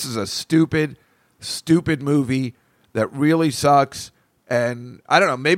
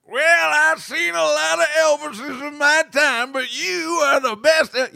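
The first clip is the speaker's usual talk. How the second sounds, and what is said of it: Imitates a cartoon cowboy voice. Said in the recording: “he should have been doing the cowboy from The Simpsons”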